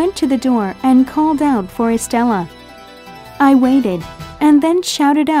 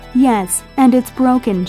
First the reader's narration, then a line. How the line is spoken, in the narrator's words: she cried